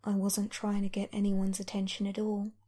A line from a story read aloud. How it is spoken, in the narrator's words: He says, more softly this time